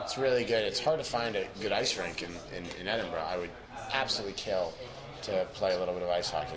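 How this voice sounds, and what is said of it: Strained, failing hoarse voice. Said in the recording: “my voice is absolutely going”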